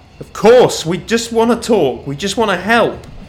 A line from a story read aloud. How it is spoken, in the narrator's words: Nathan cried out